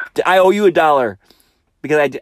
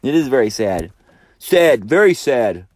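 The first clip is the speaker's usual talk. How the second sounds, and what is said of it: Donald Trump impression. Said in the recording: “I started to do a Trump impersonation.”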